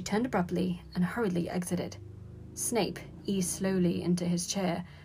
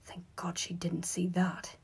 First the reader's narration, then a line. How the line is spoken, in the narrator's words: he muttered to himself